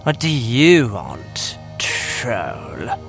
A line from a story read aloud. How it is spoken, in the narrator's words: She hissed at me